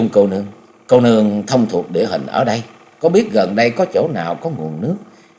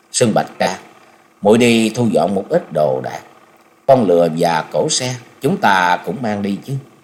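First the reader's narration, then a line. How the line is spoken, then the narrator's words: Sighing. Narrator (Vietnamese): Chung Nhật Tự mới thở dài nói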